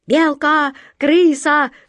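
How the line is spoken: Pirates shouting raggedly. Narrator (Russian): нестройно закричали пираты

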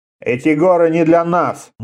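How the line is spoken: Gloomy. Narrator (Russian): мрачно сказал Реза

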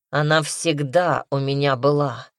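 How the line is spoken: Cold, unafraid reply. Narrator (Russian): холодно ответил Дарсу, не испугавшись

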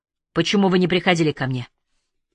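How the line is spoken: Angry question. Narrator (Russian): Питер сердито спросил

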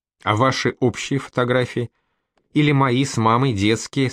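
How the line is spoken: Plain. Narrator (Russian): спросила Маня

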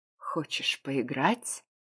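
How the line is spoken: Close intimate whisper. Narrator (Russian): прошептал у самых губ

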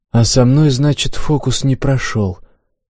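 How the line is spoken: Sighed. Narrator (Russian): вздохнул я

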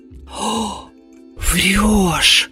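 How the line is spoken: Breathless, almost plaintive. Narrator (Russian): выдохнула подруга, почти жалобно

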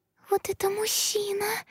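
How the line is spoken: Frightened squeak. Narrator (Russian): пискнула ее перепуганная подружка

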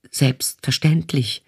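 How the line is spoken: Fox stammering. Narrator (German): stammelte der Fuchs

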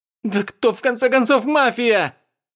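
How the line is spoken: Hysterical screeching yell. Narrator (Russian): Истерично завопила Хуан Синь, издав звук, похожий на тот, когда вилка царапает стекло

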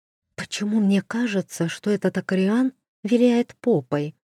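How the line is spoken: Whispered question. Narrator (Russian): шепотом спросила Маша

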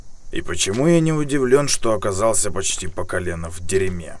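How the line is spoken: Snorting, wry. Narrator (Russian): хмыкнул Бёрд

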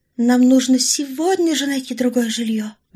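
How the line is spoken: Sigh. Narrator (Russian): вздохнула Орлова

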